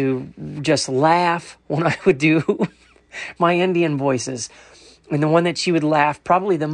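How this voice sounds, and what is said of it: Usual voice. Nothing is said of it.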